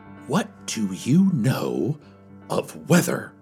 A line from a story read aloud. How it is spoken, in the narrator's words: I stammered